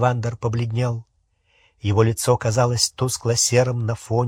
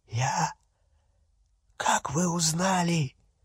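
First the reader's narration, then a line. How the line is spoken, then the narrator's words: Pleading hoarse croak. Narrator (Russian): прохрипел Олливандер, с мольбой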